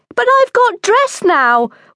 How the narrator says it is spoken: whined

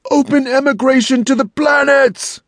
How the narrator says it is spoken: hundreds shouted, almost in unison

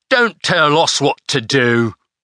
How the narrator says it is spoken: growled the tide waiter

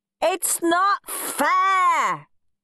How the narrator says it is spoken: howled Henry

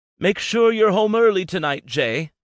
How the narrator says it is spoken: She shouted back

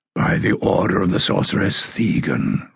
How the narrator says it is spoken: rasped the man

